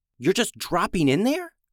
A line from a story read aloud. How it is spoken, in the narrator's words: Renner whispered loudly